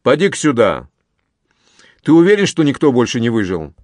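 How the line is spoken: Smoky bass voice. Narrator (Russian): Конопатый произнес прокуренным басом

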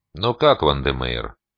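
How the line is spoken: Feigned indifferent question. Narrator (Russian): как можно более равнодушным тоном поинтересовался я

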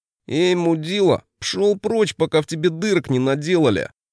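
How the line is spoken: Nasal voice. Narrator (Russian): Первым слово взял гнусавый

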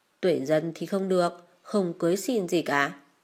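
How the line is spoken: Harsh, tense voice. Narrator (Vietnamese): mẹ Khương bỗng biến sắc, bà gằn giọng

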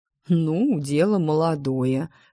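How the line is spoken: Dragon's amused snort. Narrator (Russian): хмыкнул дракон

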